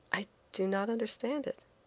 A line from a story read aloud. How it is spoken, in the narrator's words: I said quietly, too proud to show my ignorance